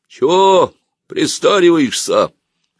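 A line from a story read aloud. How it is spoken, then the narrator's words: Hoarse, cold-roughened bark. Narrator (Russian): хриплым простуженным голосом гаркнул подходивший Малыгин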